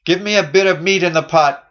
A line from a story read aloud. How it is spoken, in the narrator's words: cries the worldling